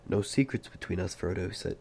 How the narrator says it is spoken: he said

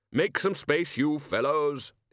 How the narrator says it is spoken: the Arch-Chancellor bellowed

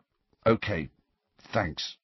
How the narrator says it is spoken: he muttered

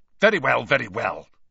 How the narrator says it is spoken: Snape snapped

